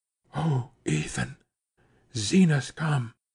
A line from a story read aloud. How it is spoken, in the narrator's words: she said in a whisper, clutching his sleeve